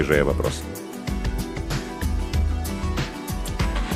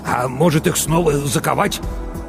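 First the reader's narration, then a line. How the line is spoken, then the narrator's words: Angry smirk. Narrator (Russian): Матвей зло усмехнулся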